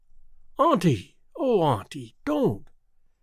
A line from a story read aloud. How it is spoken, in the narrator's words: exclaimed Theodora impulsively